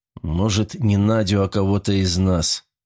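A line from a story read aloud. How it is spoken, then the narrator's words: Sudden muffled suggestion. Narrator (Russian): вдруг глухо предложил Григорий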